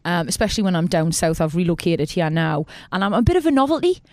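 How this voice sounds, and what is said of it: Geordie accent, musical rising endings. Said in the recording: “my accent ... The Geordie accent's quite musical. We always go up at the end. ... We're a friendly accent.”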